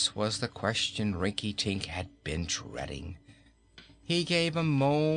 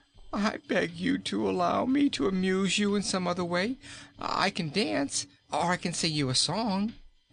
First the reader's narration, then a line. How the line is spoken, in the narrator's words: pleaded poor Rinkitink